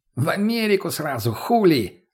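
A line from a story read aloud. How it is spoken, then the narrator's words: Addict guffawing. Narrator (Russian): захохотал наркоман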